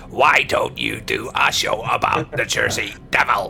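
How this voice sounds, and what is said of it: Imitates a robotic synthesized voice. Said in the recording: “to do the voice ... Stephen Hawking like kind of robot voice ... That was my Howard from the Big Bang Theory ... Impersonating Stephen Hawking's impersonation”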